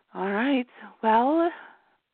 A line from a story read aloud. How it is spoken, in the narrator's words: Serena sighed